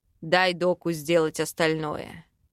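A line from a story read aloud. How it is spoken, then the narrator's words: Deep bass voice. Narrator (Russian): пробасил демон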